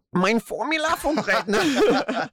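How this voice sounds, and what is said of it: Put-on German accent. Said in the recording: “Can you do it in your best German accent?”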